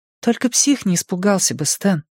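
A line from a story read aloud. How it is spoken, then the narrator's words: Soft. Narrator (Russian): мягко сказала Беверли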